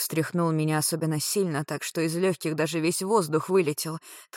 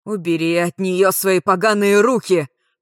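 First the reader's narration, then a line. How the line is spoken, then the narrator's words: Pained growl. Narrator (Russian): прорычал Альт, снова получая удары током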